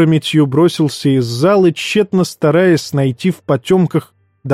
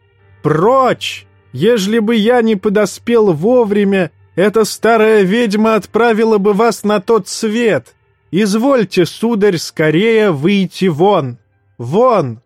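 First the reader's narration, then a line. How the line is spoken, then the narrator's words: Shouting. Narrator (Russian): закричал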